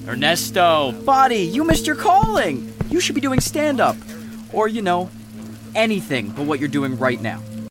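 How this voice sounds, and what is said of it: Cocky villain character voice. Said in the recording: “he's got such a good villain voice ... he's very cocky”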